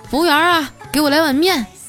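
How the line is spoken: Burly man calling out. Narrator (Chinese): 五大三粗的大老爷们儿啊，搁那喊

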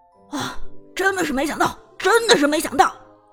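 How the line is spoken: Shocked commentator shouting. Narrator (Chinese): 解说也是震惊喊道

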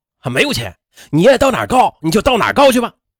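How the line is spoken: Angry roar. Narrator (Chinese): 这院长却对他吼道

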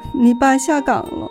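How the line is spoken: Crying. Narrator (Chinese): 母亲哭着说

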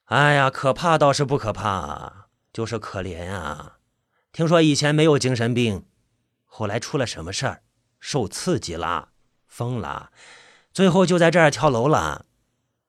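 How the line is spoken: Sighing. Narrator (Chinese): 老板叹了一口气

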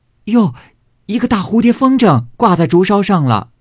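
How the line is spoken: Maid shouting. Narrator (Chinese): 帘外的丫鬟嚷道

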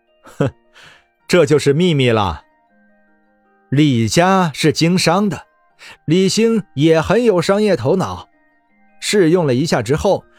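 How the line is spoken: Calm reply with smile. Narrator (Chinese): 李直笑了笑，淡淡答道

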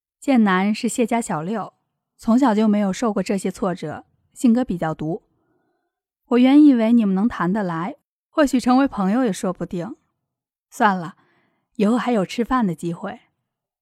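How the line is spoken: Soft sigh. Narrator (Chinese): 张克轻轻的叹了一口气，说道

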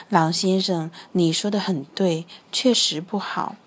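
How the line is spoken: Low voice. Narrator (Chinese): 猫头鹰低声说

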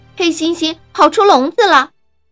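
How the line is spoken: Loud scream. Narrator (Chinese): 一位清洁工大声尖叫着

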